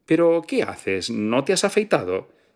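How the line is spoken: Quick impatient exclamation. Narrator (Spanish): Ella esperó a duras penas a que colgara y rápidamente exclamó

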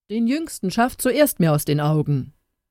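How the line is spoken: Called out by the king. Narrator (German): rief der König

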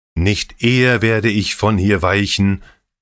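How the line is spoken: Threatening shout. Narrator (German): rief König Hethel drohend

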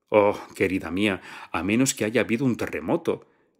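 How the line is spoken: Triumphant. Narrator (Spanish): dijo la invitada con tono triunfal

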